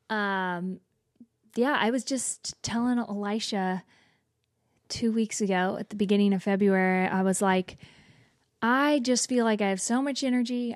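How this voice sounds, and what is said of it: Slightly hoarse, worn voice. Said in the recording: “my voice is a little bit out today.”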